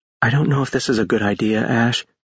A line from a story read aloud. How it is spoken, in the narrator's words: she said quietly